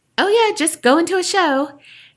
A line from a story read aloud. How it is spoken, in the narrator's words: My aunt laughed and said